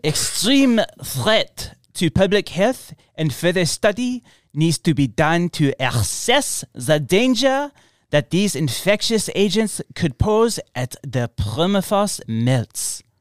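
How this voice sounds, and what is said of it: Put-on French accent. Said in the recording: “should I do it in an accent? ... French. ... that's pretty good”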